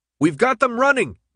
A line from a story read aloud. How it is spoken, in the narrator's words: Minho yelled